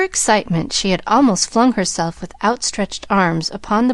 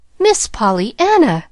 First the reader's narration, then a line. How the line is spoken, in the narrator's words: gasped Mary in stern disapproval